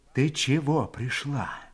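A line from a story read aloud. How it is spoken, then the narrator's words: Insinuating near-whisper. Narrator (Russian): Вкрадчиво, почти шепотом спросила она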